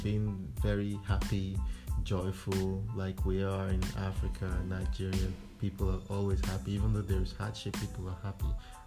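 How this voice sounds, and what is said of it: Nigerian African accent. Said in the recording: “I try to keep a lot of those African authenticity myself, meaning my accent. It has changed a bit”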